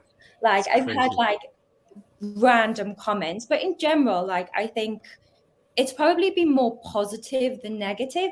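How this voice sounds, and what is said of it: Geordie accent. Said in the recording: “because of the accent, they like related it to that because of Geordie Shaw ... I'm quite proud of my accent”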